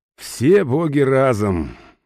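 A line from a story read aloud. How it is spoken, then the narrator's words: Resigned sigh. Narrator (Russian): вздохнул, поняв, что разговор затянется надолго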